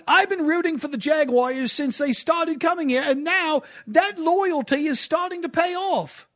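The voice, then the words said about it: Bad put-on British accent. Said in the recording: “It's a bad British accent. It's the best I could do ... you need a more Cockney in there.”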